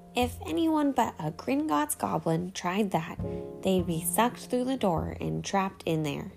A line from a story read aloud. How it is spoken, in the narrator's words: said Griphook